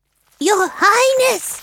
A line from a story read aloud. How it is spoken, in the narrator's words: A small animal squeaked